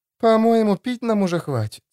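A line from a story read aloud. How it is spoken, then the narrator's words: Sigh. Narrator (Russian): вздохнула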